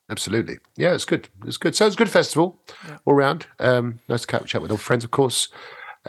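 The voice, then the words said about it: Sick-sounding voice. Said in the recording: “because of the old uh, flu, yeah. but which I'm still getting over, as you can probably hear in my voice.”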